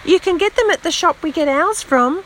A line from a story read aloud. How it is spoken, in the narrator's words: called out a little girl